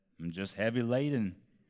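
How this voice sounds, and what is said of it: Put-on Southern accent. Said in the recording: “Not sure why that was a southern accent... Heavy laden is southern”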